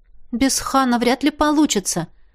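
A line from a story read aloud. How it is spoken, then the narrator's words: Uncertain answer. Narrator (Russian): ответила неуверенно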